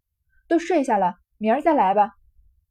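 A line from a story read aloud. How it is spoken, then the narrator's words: Angry. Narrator (Chinese): 晴雯越发动了气，便说道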